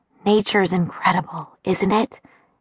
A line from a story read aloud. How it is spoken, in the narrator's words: Dad murmured